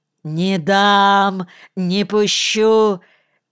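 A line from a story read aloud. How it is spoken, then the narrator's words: Wild frantic shouting. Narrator (Russian): кричал завмак дурным голосом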